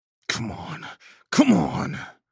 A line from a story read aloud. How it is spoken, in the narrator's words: I snarled